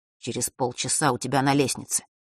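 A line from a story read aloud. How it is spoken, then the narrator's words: Quick whisper. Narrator (Russian): Фэш быстро прошептал Василисе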